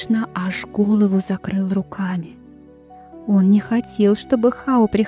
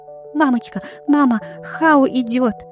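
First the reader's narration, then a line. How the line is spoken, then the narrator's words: Frightened shouting. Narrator (Russian): испуганно кричал он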